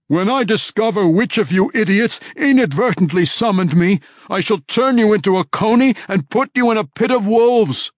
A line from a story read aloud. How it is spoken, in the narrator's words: The image screamed wildly